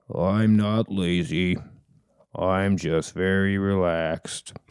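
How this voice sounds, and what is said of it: Slow, gloomy cartoon donkey voice. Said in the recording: “What's your accent this time? ... Eeyore.”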